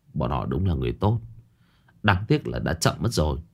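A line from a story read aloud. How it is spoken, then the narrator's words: Regretful sigh. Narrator (Vietnamese): Trương Dịch thở dài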